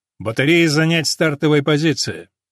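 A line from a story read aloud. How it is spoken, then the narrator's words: Matter-of-fact voice. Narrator (Russian): Капитан будничным голосом произнес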